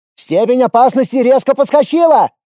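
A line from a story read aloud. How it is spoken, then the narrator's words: Shouted. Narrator (Russian): крикнул Костя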